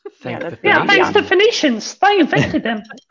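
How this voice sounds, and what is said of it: Judi Dench impression. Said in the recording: “speaking in Judi Dench's accent ... it's like Judy is on here ... That was perfect”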